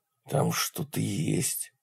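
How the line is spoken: Fearful whisper. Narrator (Russian): прошептал Брит, словно боясь, что это что-то его услышит

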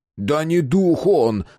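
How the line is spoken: Despairing howl. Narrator (Russian): взвыл в отчаянии Мэтт

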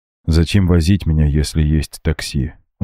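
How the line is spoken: Weary sigh. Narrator (Russian): устало вздохнул Макс

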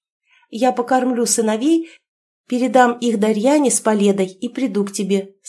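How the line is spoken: Plain. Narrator (Russian): сказала невестка

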